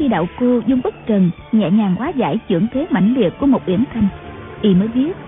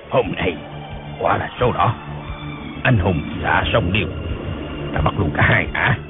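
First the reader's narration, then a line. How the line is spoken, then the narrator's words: Delighted muttering. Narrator (Vietnamese): khoái quá lẩm bẩm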